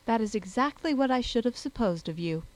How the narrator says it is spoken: said Elizabeth

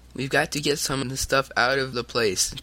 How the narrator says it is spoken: Tom cried

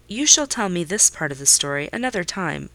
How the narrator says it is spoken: I said

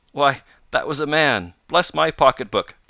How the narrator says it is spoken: cried Mr

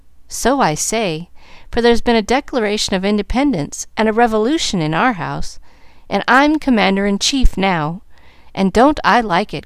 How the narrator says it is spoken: cried Molly, complacently

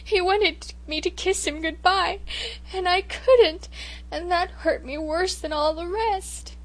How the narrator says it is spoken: sobbed

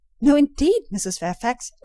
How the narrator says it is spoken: exclaimed I, nettled

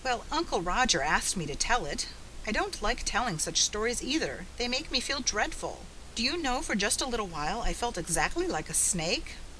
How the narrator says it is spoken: The grown-ups laughed, rather shakily, and the Story Girl, our own dear Story Girl once more, and no serpent woman, said protestingly

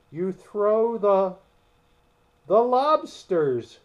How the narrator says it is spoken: shouted the Gryphon, with a bound into the air

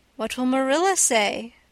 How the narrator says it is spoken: asked Diana

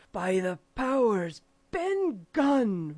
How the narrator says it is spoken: roared Silver

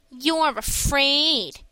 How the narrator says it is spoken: sneered Mickey

